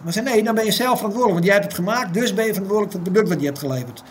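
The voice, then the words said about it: Frisian-accented Dutch. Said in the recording (Dutch): “een prachtig Fries accent trouwens”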